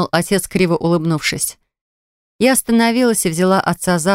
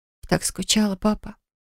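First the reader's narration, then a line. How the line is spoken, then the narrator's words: Whisper. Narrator (Russian): прошептала я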